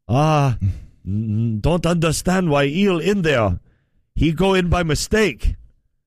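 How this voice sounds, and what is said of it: Mocking put-on foreign accent. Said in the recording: “So racist. ... It's an accent. ... it's an impression.”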